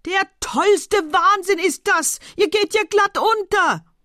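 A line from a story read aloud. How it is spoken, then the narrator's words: Desperate bellowing. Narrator (German): brüllte weiter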